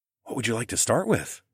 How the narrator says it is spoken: I whispered in her ear

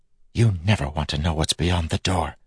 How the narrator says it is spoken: Telson whispered

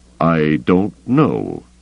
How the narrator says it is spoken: Thrawn said slowly

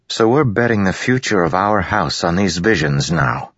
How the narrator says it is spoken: Adolin said flatly

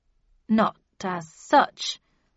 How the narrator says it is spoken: I said slowly

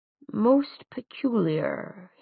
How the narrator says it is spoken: he murmured

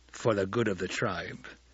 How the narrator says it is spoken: Stilgar growled

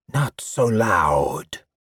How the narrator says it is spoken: the voice hissed

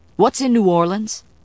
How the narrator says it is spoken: Chris asked sharply

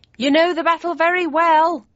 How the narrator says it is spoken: I shouted above the noise

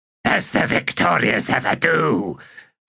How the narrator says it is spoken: the Sticksnare hissed

